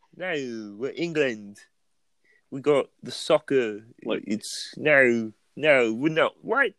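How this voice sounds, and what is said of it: Put-on general British accent. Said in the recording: “How do you like my accent? I'm working on it in isolation. ... Would you call that a Hackney accent? Like, a Cockney accent? ... I was just going British, just general British.”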